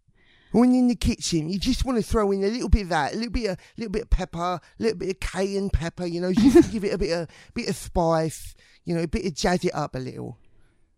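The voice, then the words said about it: Jamie Oliver impression. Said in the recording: “That accent doesn't turn me on ... my Jamie Oliver rant”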